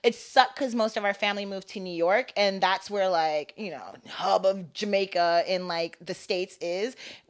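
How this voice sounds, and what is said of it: Valley girl accent. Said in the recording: “you have like a very, if I may say it, Valley girl accent... It's so Valley.”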